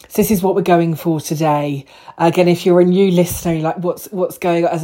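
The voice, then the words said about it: Hoarse voice. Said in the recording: “I probably sound a little bit hoarse. ... I've got a ridiculous cold.”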